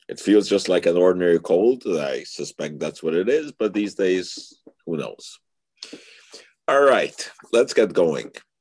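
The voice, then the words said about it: Hoarse voice. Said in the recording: “forgive me a little bit for my voice. It's a little bit hoarse.”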